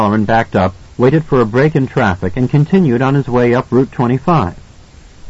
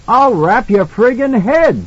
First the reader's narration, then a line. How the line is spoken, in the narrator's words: the cop shouted back